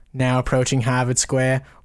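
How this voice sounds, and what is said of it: Put-on Northeast US accent. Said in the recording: “the Northeast accent ... I just love the voice ... the Northeast accent”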